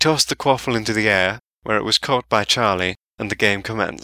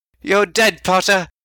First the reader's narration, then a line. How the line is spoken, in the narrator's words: Ron yelled